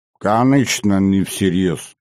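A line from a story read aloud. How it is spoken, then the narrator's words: Curt grumble. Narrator (Russian): буркнул тот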